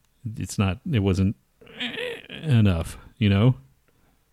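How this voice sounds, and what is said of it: Usual voice. Nothing is said of it.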